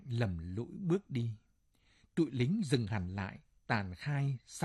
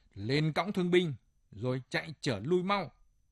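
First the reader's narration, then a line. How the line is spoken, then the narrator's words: Barked order. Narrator (Vietnamese): Một thằng quát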